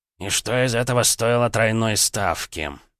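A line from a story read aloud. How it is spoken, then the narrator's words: Gloomy question. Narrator (Russian): мрачно спросил Юрас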